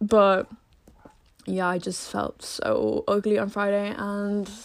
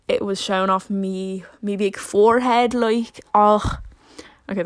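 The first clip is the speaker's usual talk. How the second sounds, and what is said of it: Briefly puts on an accent. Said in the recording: “I never do that accent”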